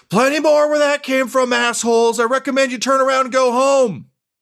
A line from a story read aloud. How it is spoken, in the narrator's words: Sylvia yell